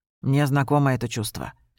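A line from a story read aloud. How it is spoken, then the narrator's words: Quiet. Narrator (Russian): тихо сказал Джулиан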